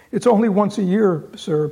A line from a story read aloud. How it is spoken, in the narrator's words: pleaded